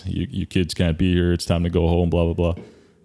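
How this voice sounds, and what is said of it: Big deep authoritative voice. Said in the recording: “This big, deep voice.”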